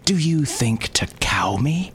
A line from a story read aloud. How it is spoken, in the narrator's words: He gasped